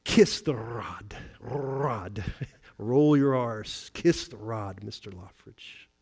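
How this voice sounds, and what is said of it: Attempted Scottish brogue, Sinclair Ferguson. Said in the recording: “his beautiful Scottish brogue ... I can't do a Scottish accent.”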